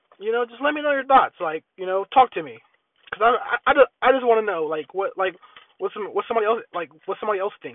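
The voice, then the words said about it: Low, sick-sounding voice. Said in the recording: “the reason why my voice is so low is because I'm getting sick ... I'm just getting a little sick”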